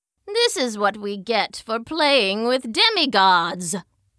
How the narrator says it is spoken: the sisters grumbled

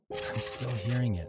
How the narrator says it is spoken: I whispered to the AD

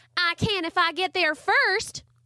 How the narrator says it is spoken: Charlie Ray yelled

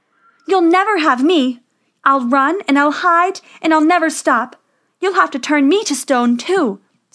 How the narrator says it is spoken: Snow White cried

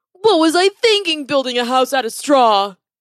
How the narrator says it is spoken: he cried out

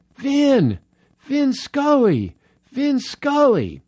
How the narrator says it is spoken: a guy is down on the concourse, and he yells up

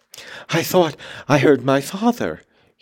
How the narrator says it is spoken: he gasped

